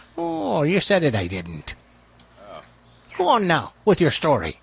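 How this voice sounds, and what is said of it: Put-on Irish brogue. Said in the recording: “what the hell happened to your voice? ... It's an Irish brogue.”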